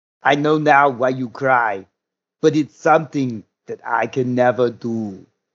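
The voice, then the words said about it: Imitates another person's accented voice. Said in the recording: “I can't say this without pulling the voice out the best I can do it ... that voice, that accent”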